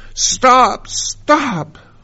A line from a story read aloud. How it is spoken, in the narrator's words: I got hotter and hotter until I couldn't stand it any longer, and then I cried out